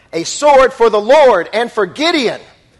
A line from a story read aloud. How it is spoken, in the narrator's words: they shouted